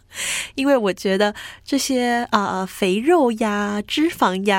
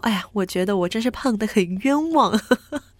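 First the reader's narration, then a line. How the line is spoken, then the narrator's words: Laughing. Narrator (Chinese): 笑着跟我朋友讲说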